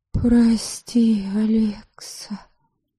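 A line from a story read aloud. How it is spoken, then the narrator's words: Whisper. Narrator (Russian): прошептала Криста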